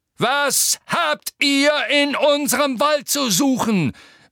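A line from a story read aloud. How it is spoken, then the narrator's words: Centaur roaring. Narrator (German): brüllte der graue Zentaur mit den harten Gesichtszügen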